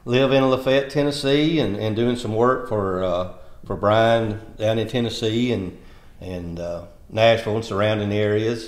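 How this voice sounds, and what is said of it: Southern drawl. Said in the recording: “my drawl”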